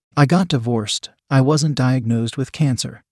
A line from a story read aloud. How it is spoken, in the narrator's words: I replied